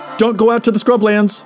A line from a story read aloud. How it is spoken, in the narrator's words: Al added with a shout